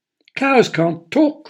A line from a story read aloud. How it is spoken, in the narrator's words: cried Mildred